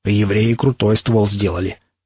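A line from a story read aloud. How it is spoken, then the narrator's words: Approving mutter. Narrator (Russian): одобрительно пробурчал Никита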